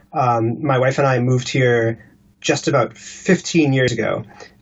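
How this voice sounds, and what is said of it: Non-British accent. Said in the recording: “you can hear from my voice and my accent, I am not a native Briton”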